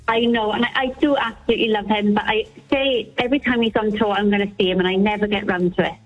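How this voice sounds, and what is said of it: Welsh accent. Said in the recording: “sounds like a Welsh accent”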